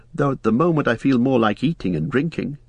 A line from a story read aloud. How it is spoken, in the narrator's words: laughed Frodo